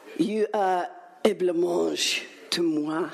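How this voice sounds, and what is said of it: Put-on French accent. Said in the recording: “it is in a beautiful French accent.”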